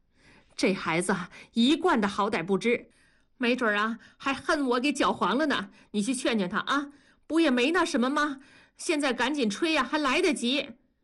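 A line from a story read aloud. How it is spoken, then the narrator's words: Shouting. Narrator (Chinese): 文丽 冲着同志喊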